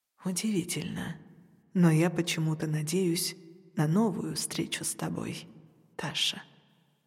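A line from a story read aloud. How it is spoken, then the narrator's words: Pensive, tender after pause. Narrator (Russian): немного помолчав, добавил задумчиво нежно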